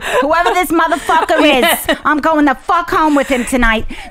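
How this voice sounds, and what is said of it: Speaks in a put-on accent. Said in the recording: “Now I have an accent for some reason.”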